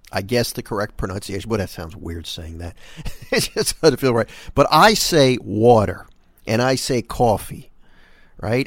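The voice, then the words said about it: New York accent on water, coffee. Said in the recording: “I think my accent is more New York than it is Philly ... I think I have more of a New York pronunciation for the word water and coffee”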